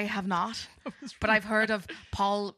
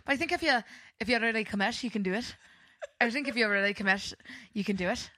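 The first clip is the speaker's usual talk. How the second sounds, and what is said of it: Put-on Irish accent. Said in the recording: “Can we talk in Irish accents for the whole podcast? ... It's really hard to talk in an Irish accent.”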